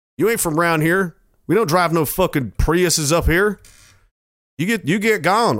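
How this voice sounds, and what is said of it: Cocky stereotypical Albertan cowboy voice. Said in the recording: “my brain immediately just wants to go to some, like, cocky fucking cowboy hat-wearing guy ... stereotypical Albertan accent”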